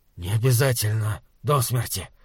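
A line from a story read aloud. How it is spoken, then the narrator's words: Hoarse croak. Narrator (Russian): прохрипел Хорза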